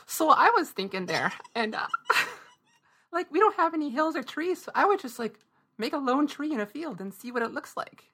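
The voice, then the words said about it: Strong put-on Fargo accent. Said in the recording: “you have to do the rest in a really strong Fargonian accent.”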